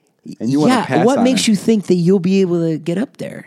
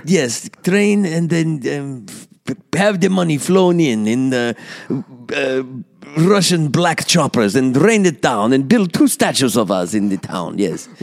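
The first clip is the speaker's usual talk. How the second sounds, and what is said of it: Put-on Russian-Slovak accent. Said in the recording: “That is my Russian-Slovak accent. It's neither here nor there.”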